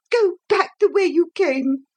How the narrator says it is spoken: she cried

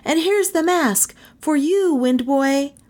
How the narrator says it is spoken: he cried to them

